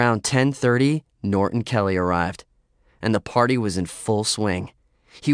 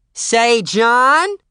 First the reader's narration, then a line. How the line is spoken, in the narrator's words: Jane Appling's voice screeching across the room